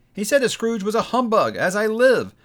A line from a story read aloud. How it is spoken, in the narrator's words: cried Scrooge's nephew